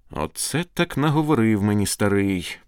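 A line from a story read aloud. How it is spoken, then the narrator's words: Sigh. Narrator (Ukrainian): зітхнув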